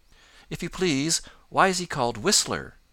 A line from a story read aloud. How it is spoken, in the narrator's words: asked Johnny Chuck eagerly